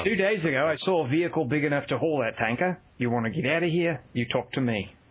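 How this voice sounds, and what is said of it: Put-on Australian accent. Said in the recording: “I will do a line from Road Warrior in an Australian accent.”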